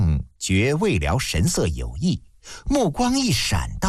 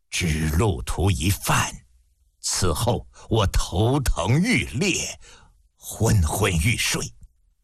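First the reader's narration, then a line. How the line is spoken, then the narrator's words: Hoarse, after silence. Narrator (Chinese): 魏辽默然片刻，嘶哑着声音道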